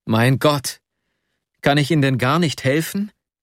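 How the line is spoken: Desperate cry. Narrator (German): rief ich ganz verzweifelt

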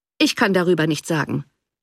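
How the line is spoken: Cold reply. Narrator (German): erwiderte der Baronet kalt

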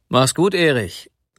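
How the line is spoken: Calling after someone. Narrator (German): rief er noch dem jungen Manne nach

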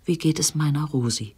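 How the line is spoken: Whisper. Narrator (German): flüsterte

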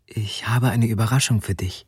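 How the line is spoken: Whispered. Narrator (German): flüsterte sie

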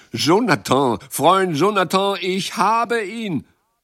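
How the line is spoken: Sudden emotional shout. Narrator (German): Plötzlich rief Jacques, mit bewegter Stimme

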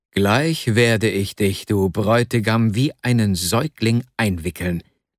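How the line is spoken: Plain. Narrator (German): sagte

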